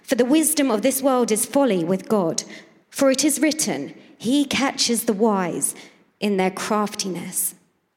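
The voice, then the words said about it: English accent. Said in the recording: “everybody this morning has an English accent”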